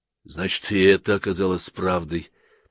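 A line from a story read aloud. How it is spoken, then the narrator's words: Muttered to himself. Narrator (Russian): пробормотал самому себе Ланселот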